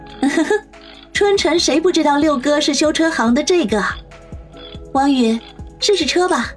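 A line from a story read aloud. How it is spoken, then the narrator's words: Sweet smiling. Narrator (Chinese): 杨思思甜甜一笑，说道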